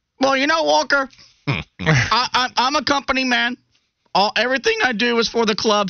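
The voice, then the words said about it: Imitates another person's voice. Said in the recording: “I do have a pretty good Willie P impression.”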